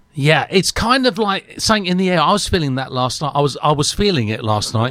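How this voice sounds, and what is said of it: Hoarse voice from sore throat. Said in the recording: “my throat was bad as well. So I'm a bit hoarse as well today.”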